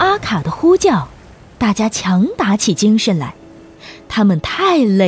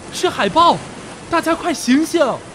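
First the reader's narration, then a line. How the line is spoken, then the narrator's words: Loud shout. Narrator (Chinese): 阿卡一边大叫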